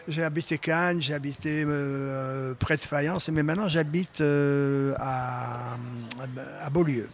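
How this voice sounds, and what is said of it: Slight southern French accent. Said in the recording (French): “tu as un petit accent qui me dit que tu es du Sud”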